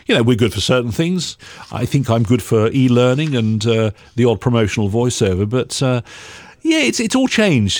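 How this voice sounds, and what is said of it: Neutral accent. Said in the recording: “I've got a neutral accent. I used to have a bit of a West Country accent, but I've lost that ... Neutral accents like mine”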